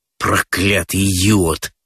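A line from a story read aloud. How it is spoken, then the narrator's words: Grumbling through teeth. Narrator (Russian): ворчит он сквозь зубы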